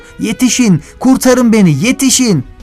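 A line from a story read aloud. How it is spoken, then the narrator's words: Yelling at the top of lungs. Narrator (Turkish): diye bar bar bağırıyordu Hasan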